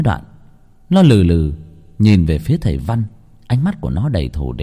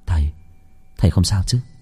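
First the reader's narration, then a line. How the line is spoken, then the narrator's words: Worried. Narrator (Vietnamese): Khánh lo lắng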